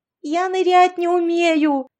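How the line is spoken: Yelling. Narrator (Russian): завопила Яшка

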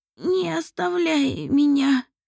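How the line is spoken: Hoarse rasp. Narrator (Russian): прохрипела Лориэль

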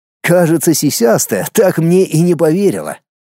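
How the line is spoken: Snorting chuckle. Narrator (Russian): хмыкнул Дмитрий

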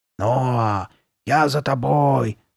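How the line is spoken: Hoarse low call. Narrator (Russian): окликнула его Карли Бет сиплым и низким голосом

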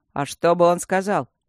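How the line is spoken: Snorting. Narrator (Russian): фыркнул Мартин

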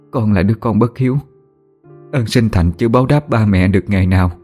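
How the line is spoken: Choked with emotion. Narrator (Vietnamese): Nhung nghẹn ngào, cô đáp

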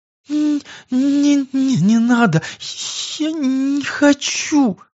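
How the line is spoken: Young woman moaning in pain. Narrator (Russian): Превозмогая страдания, простонала девушка

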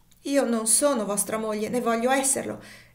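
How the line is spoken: Desperate, proud exclamation. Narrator (Italian): esclamò la povera creatura col subitaneo e fiero coraggio della disperazione

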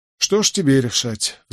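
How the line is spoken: Sighing. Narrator (Russian): вздохнул я

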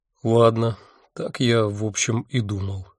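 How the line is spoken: Dejected voice. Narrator (Russian): упавшим голосом сказал

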